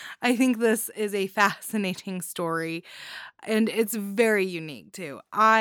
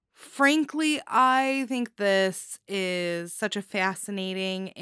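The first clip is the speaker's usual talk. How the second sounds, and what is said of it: Slipped into Midwestern US accent. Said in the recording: “I don't know why I got a Michigan accent there, or Minnesota.”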